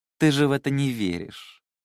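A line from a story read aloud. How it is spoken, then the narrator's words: Snide, mocking. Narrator (Russian): ехидно сказала Мэйли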